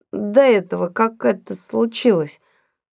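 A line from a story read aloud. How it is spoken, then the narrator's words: Muffled, hollow voice. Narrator (Russian): продолжал Том глухо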